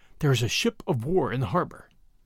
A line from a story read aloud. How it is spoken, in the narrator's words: Bradley answered in a whisper